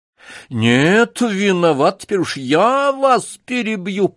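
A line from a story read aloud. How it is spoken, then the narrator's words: Nearly shouting. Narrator (Russian): почти закричал прокурор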